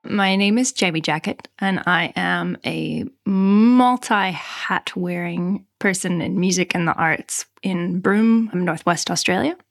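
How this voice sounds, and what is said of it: Canadian accent. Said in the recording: “as you can hear from my accent, originally Canadian.”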